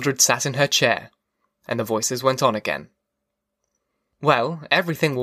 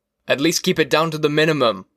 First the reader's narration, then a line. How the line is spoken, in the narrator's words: he yelled